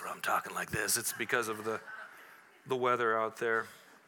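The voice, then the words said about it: Raspy smoker-like voice. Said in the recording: “that cool smoker voice”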